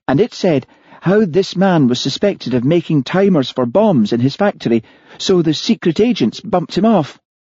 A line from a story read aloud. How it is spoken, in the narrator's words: said Martha eagerly